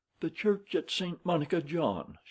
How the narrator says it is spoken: she cried

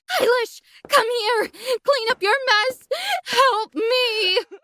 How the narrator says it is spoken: she cried

